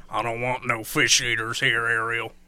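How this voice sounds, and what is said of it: Deep Southern accent. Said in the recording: “a really deep southern accent”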